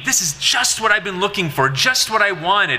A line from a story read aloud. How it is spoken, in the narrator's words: impressed with this globe, Ingersoll exclaimed